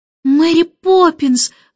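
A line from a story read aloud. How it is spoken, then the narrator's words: Trembling shout. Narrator (Russian): закричала Джейн дрожащим голосом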